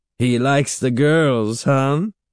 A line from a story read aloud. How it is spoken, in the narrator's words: Catherine repeated, still chuckling